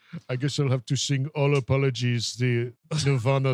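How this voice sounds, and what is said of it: Usual voice. Nothing is said of it.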